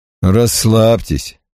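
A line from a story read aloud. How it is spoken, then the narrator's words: Through gritted teeth. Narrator (Russian): процедил Дэвис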